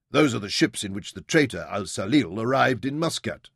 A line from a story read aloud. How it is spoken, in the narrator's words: snapped Kadam